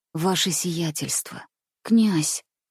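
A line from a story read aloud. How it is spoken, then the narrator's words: Muffled whisper. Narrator (Russian): прошептал глухо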